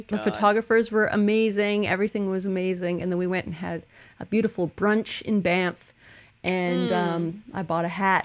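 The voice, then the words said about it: Phlegmy voice from a cold. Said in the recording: “I have a cold ... I still have, like, phlegm in my throat ... both of us are a little phlegmy now”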